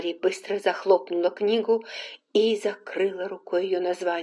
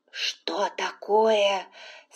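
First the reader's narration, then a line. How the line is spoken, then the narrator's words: Whispered question. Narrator (Russian): спросила тоже шепотом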